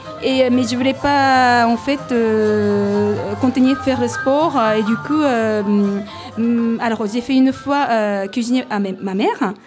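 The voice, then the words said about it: Non-native accent in French. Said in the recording (French): “j'ai encore du mal à... Voilà, au niveau accent”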